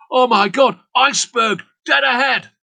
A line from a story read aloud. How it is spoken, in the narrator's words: He shouted this down the voice pipe